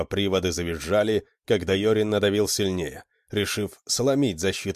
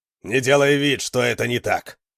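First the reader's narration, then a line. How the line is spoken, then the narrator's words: Growled. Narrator (Russian): прорычал Гуннар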